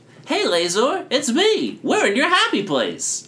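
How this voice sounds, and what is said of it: Silly character voice. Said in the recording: “I think this is Blocko's voice. Close enough. ... Silly voice.”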